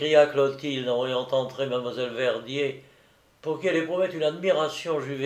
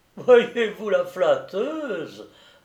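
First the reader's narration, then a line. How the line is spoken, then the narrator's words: Laughing reply. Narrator (French): répondit Marguerite en riant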